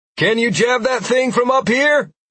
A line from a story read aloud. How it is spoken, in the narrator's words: I yelled back